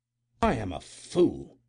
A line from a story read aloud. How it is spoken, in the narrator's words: he exclaimed angrily